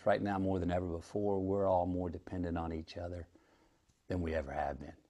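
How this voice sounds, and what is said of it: Strong Southern twang accent. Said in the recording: “his real accent ... that's how he talks ... calm down with that accent ... an insane twang to the voice”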